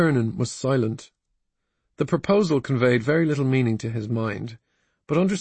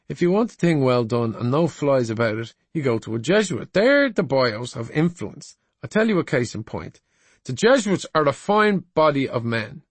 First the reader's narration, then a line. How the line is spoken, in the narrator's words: said Mr